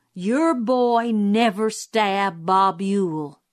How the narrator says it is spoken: he said slowly

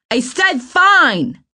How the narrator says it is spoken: he yelled back

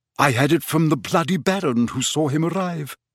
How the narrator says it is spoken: said Nick

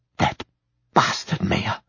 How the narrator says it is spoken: she whispered

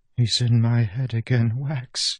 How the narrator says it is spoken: she whispered, trembling

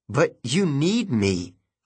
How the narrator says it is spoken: I said

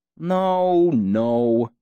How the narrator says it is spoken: Jake grumbled

